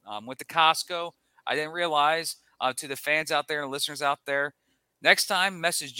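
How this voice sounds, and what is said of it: Usual voice. Nothing is said of it.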